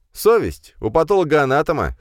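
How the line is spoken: Smirking snort. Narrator (Russian): хмыкнул Федя

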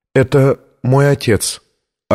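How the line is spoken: Trembling voice. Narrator (Russian): ответила дрожащим голосом Виктория

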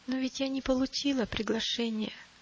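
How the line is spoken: Timid. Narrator (Russian): робко проговорила милость

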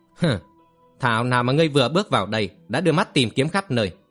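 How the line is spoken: Laughing loudly. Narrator (Vietnamese): Kim Phi Hùng cười lớn

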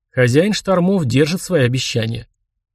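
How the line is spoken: Smirking grunt. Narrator (Russian): Скрёмт хмыкнул

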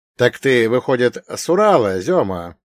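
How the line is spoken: Short laugh. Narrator (Russian): хохотнул

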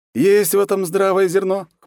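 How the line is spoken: Wry snort. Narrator (Russian): хмыкнул я

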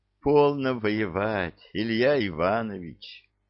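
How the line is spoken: Gentle coaxing. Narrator (Russian): ласково увещевала его царица

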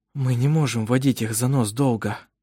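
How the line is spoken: Said quietly. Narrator (Russian): тихо сказал Даниэль

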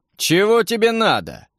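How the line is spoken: Hoarse roar. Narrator (Russian): проревел хриплым голосом коротышка

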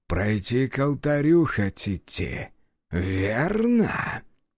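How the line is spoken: Hissed. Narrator (Russian): прошипел второй протектор

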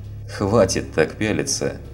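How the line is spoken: Cheerful declaration. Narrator (Russian): весело заявил Дима

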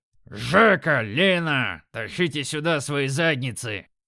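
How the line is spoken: Booming voice. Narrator (Russian): Прогремел он

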